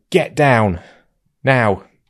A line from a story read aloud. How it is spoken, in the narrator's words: I just shouted at her